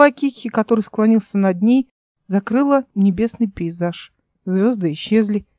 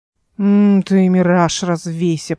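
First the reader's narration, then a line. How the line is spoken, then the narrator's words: Moaned. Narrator (Russian): простонала она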